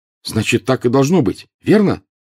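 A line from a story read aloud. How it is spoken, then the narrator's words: Fervent exclamation. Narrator (Russian): горячо воскликнул Гарри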